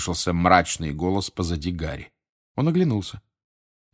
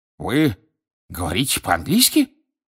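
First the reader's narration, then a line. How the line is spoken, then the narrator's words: Indignant exclamation. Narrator (Russian): возмущенно воскликнул Фадж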